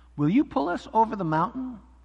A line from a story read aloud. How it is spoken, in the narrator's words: cried the dolls and the toys